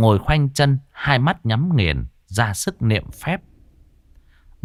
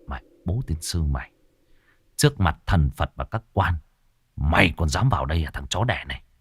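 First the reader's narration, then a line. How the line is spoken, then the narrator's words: Muttered cursing, chest tight. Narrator (Vietnamese): tức ngực như đá đè, cậu lẩm bẩm chửi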